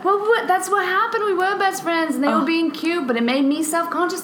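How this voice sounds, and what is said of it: Speaks with a lovely accent. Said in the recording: “You do have a very lovely accent”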